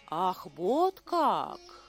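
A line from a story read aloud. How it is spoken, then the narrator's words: Thoughtful. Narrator (Russian): задумчиво проговорил Хануман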